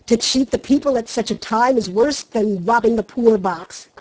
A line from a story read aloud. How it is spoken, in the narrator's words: cried Trent angrily